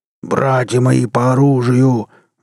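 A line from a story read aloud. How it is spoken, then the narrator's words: Roaring, moved to tears. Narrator (Russian): взревел Эндрю Брас, у которого даже уголки глаз подозрительно заблестели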